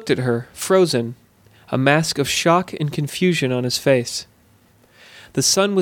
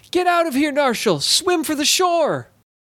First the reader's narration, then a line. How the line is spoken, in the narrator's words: As soon as she broke the surface of the water, she was shouting